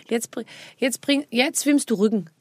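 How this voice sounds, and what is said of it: Danish-accented German imitation. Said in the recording (German): “Das spricht dich so? ... Ja, das ist aus Dänemark. ... Mach nochmal den Dialekt.”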